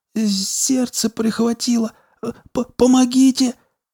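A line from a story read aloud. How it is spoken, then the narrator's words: Pained groan. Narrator (Russian): Док простонал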